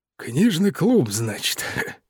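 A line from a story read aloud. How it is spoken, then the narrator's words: Amused snort. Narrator (Russian): хмыкнул мистер Питерсон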